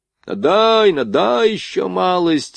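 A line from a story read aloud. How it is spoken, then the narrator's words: Hoarse group shouting. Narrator (Russian): охрипшими голосами кричали фейерверкеры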